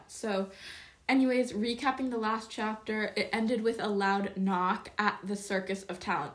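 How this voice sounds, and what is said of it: Congested, stuffed-up nasal voice. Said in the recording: “I'm a bit stuffed up in my nose, so my voice is a bit interesting”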